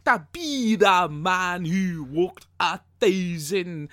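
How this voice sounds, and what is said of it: Put-on accent while singing. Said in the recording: “I'm going to get my accents all mixed up here”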